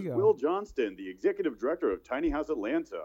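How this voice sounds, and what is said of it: Announcer-style radio voice. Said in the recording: “in a radio voice”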